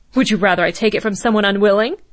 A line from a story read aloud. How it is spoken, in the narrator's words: Jaeger snapped